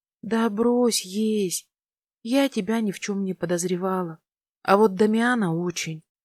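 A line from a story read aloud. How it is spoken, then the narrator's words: Sighing confession. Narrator (Russian): призналась я и вздохнула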